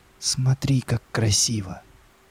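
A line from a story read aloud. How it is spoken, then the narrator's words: Admiring whisper. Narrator (Russian): восхищенно прошептала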